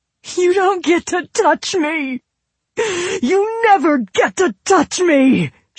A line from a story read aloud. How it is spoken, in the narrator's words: howled, snot still raining from her nose